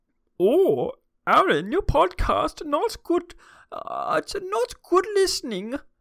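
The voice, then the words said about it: Clumsy put-on listener voice. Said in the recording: “start doing my own voices ... I'm not good at voices. I don't know how to manipulate my voice in the way like doing accents or impressions ... I don't have the vocal control”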